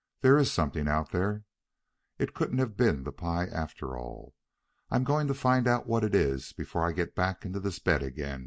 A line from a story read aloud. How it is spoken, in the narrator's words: he decided firmly